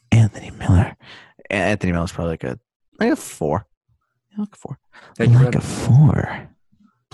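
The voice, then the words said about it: Weird, creepy put-on voice. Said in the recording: “doing that voice. It's so weird. ... It doesn't take talent to be creepy.”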